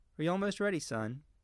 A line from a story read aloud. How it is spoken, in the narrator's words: Doris asked